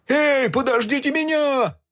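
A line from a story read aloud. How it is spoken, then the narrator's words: Shouting after them. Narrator (Russian): кричал он им вдогонку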